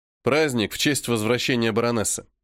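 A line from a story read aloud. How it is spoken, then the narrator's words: Cold remark. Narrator (Russian): Холодно замечаю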